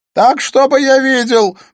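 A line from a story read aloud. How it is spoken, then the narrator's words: Shouting. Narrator (Russian): прокричал Смит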